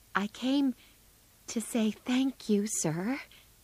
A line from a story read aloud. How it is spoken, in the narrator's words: in her quiet little voice